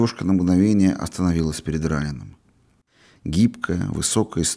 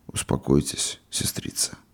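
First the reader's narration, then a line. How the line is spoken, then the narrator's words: Muffled voice. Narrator (Russian): Глухо проговорил он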